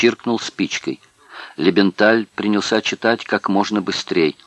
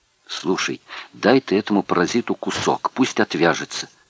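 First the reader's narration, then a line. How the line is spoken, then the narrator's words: Impatient whisper. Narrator (Russian): в нетерпении шепнул 509-й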